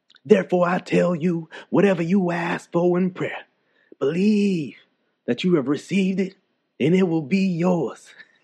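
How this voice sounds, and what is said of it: Word of Faith preacher voice. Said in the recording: “let me put on my Word of Faith preacher voice. ... I'm a little rusty.”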